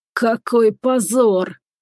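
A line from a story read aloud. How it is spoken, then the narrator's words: Hoarse wheeze. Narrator (Russian): прохрипел он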